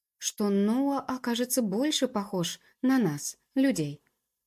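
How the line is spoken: Unsure, disappointed voice. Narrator (Russian): голос Джуб звучал неуверенно и разочарованно

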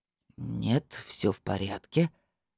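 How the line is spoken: Thoughtful drawl. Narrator (Russian): задумчиво протянул опер

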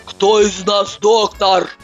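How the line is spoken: Yelling. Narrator (Russian): вопит она

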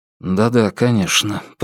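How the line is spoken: Mumble. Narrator (Russian): пробормотал Алан

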